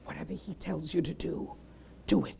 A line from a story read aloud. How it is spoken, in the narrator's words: very quietly, but whispers